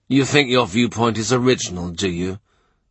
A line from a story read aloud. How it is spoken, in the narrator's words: he says gloomily